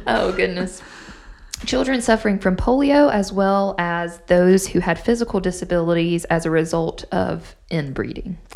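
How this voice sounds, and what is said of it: Hoarse, fading voice. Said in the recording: “why am I losing my voice?”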